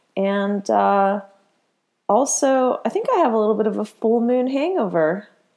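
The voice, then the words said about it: Congested voice from a head cold. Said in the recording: “you might hear in my voice, I'm still getting over a little bit of a head cold”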